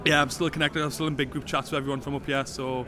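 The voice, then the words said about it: Northeast English accent. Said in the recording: “you can tell from your accent, you're from this area”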